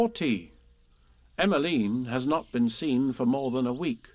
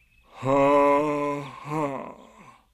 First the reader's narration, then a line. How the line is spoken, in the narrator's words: said Eeyore bitterly